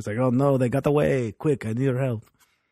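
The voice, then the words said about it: Put-on French accent. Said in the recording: “I was trying to do a French accent.”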